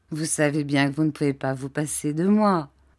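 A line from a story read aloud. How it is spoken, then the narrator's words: Laughing. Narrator (French): dit ma tante en riant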